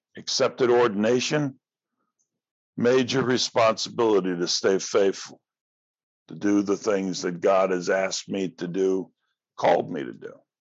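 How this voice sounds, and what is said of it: Strained, fading voice. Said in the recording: “I'm losing my voice. It's not good.”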